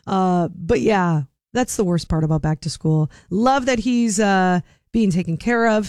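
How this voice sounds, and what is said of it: Raspy, nearly lost voice. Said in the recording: “Just mainly don't have a voice. So that's why I sound so raspy right now.”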